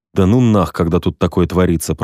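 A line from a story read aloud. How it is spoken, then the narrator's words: Grumbling. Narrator (Russian): пробурчал я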